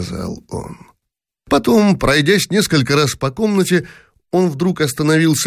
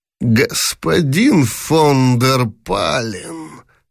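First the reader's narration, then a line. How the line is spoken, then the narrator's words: Hoarse emperor. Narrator (Russian): сипло сказал, наконец, император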